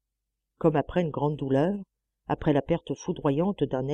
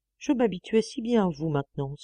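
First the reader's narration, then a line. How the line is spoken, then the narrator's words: Sighing woman. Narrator (French): soupira-t-elle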